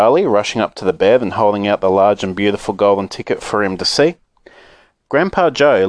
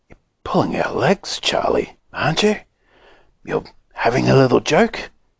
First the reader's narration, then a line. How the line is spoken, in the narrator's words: very softly, Grandpa Joe said